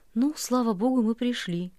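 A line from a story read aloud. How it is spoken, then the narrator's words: Weak voice. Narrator (Russian): сказала слабым голосом татарка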